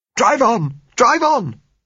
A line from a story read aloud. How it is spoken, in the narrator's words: said Gisella hysterically